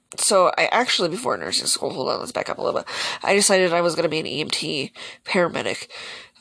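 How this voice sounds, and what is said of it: Hoarse, fading voice. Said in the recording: “now my voice is going out again.”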